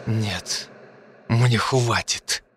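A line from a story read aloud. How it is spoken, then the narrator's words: Angry, through gritted teeth. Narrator (Russian): процедил я со злостью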